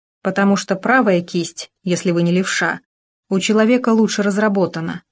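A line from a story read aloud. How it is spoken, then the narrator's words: Plain. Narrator (Russian): ответил Маркелов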